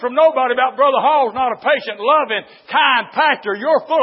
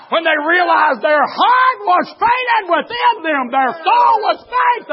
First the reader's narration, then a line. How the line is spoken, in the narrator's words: they cried